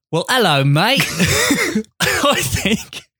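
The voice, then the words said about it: Don Cheadle's Cockney accent attempt. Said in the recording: “a Don Cheadle Cockney accent ... If you're trying to do a British accent”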